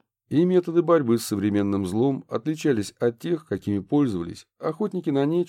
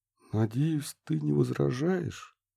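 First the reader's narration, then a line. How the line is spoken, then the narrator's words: Quiet. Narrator (Russian): тихо проронил Курт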